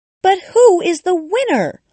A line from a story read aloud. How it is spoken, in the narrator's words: all the birds and animals cried